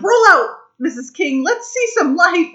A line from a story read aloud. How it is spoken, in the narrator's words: she starts yelling